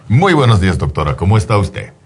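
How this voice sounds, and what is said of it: Strong professional radio announcer voice. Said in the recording (Spanish): “Estoy usando mi voz profesional... ¿Tu voz de locutor?... Mi voz de locutor... Con macho man. Esta voz tan fuerte.”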